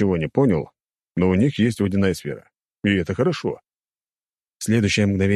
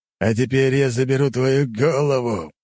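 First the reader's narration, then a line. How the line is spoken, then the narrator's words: Growled. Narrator (Russian): прорычал Робинс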